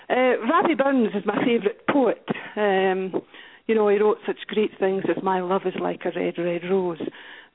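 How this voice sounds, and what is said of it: Scottish accent. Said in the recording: “with me coming from Scotland. I hope you can all understand me ... I've gone in my funny accent.”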